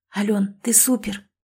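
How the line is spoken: Whispered. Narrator (Russian): шепнула Катя

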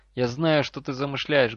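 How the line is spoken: Loud declaration. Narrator (Russian): громко заявила она

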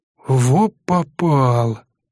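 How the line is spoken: Exhaled. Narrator (Russian): выдохнул мужчина

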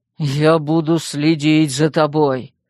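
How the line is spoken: Growled. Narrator (Russian): прорычал Вербер

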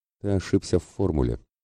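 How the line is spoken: Calm reply. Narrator (Russian): спокойно ответила Дарха

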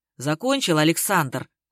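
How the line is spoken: Growled. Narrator (Russian): рыкнул Гарик

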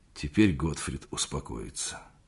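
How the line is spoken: Quiet, hoarse. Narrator (Russian): он сказал тихо и хрипло

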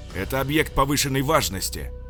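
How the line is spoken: Yelling angrily. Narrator (Russian): орал он на техников

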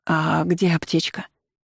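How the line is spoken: Trembling voice. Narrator (Russian): дрогнувшим голосом уточнила она

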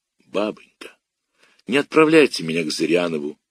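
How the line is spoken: Quiet. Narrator (Russian): тихо сказал я

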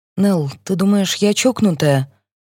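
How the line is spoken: Deep sigh, then speech. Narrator (Russian): я глубоко вздохнула и сказала

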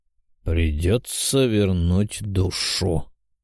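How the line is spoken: Gloomy thoughtful demon drawl. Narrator (Russian): мрачно и задумчиво протянул демон

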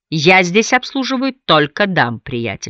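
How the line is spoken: Smiling, defiantly mocking. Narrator (Russian): сказал Харрисон с улыбкой и вызывающе насмешливым тоном

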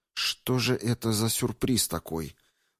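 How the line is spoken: Muttering. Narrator (Russian): пробормотала чародейка

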